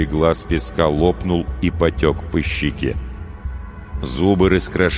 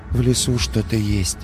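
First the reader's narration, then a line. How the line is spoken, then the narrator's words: Sad. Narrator (Russian): сказал он печально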